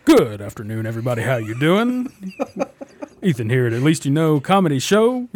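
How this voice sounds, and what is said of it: Put-on radio announcer voice. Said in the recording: “put on my radio voice.”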